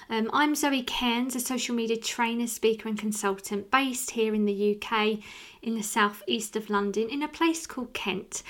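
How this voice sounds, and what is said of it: Southeast English accent from Kent. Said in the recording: “you can probably tell by my accent, I'm from an area called Rochester”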